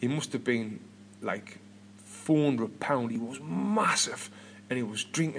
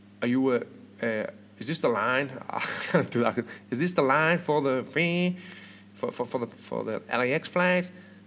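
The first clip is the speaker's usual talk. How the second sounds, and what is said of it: Poor put-on Southern American accent. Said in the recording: “in his proper Southern American accent ... This is the worst accent ever.”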